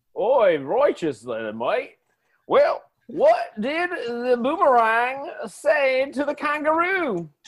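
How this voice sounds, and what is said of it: Bad put-on Australian accent. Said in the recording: “you in an Australian accent to tell me a joke ... it was the worst Australian accent”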